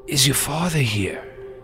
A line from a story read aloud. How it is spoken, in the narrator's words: Frankie looked pale, and he says in a weak voice